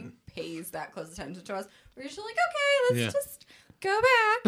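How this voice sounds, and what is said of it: Super high over-friendly customer service voice. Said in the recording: “That's my fake voice, though. ... She's trying to impress me with her super high voice. ... a friendly, over-friendly, ... customer service voice.”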